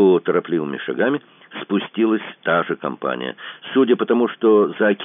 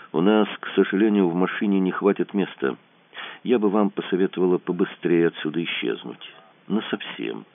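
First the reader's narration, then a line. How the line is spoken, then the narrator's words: Quiet. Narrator (Russian): Даша тихо сказала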